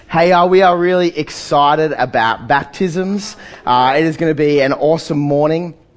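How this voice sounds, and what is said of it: Voice weakened by illness. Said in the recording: “apologizing for my voice ... my voice is a bit average today ... The dreaded Lurgy has been chasing me down”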